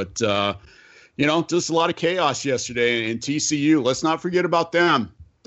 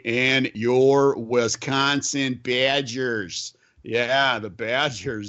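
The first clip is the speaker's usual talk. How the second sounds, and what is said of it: Put-on Wisconsin accent. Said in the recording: “you were throwing on your Wisconsin accent there”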